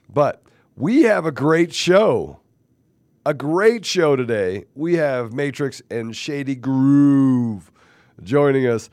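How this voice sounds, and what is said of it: Sick, rough-sounding voice. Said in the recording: “I'm still sick ... I know this is my super sexy voice”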